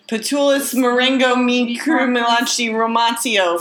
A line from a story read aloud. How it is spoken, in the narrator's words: he screamed